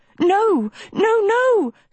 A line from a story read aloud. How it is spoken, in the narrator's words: Sophie cried